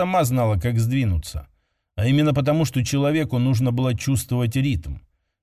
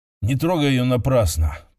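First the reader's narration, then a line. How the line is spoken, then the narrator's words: Mumbled to himself. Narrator (Russian): пробормотал Кирилл, хотя это было им сказано себе самому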